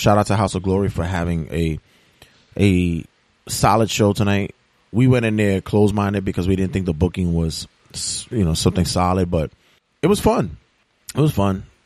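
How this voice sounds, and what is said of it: Raspy, strained voice. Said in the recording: “My voice may sound a little bit raspy tonight ... because I was just yelling the fuck out of my larynx tonight”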